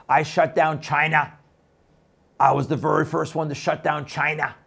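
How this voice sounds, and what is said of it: Imitates another person's voice. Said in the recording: “my son can do a really good Trump impersonation. ... He'd do it much better than I would.”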